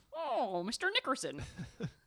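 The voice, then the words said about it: Old-fashioned 1800s-style accent. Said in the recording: “I don't know why I have that accent ... That sounded like 1800s.”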